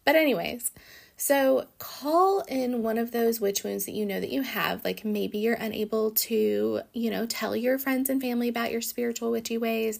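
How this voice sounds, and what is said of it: Congested, stuffy-sounding voice. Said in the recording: “I'm feeling a little congested, so I'm sure you can hear it in my voice”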